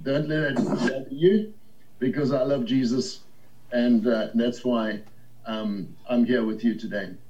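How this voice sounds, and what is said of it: Slight Zimbabwean accent. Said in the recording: “I've got a slight accent ... a little bit foreign ... I'm Zimbabwean by birth, a Rhodesian”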